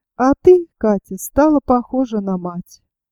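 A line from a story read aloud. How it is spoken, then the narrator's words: Sad, after a pause. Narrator (Russian): Он помолчал, потом сказал грустно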